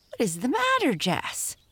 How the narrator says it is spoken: shrieked Amy

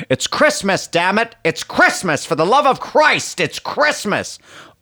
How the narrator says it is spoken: screaming

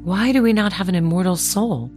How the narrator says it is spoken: asked the Little Mermaid mournfully

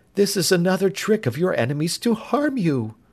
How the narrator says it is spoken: she gasped

